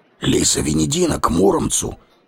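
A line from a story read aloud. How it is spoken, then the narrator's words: Quiet whisper spreading through crowd. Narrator (Russian): прибойной волной пролетел тихий шепот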